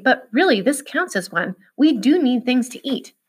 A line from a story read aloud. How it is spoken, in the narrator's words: she said anxiously